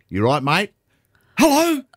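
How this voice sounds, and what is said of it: Put-on Australian accent. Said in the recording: “Aussie accent.”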